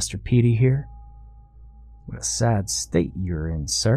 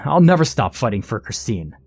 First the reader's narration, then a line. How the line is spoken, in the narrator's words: Blaine shouted back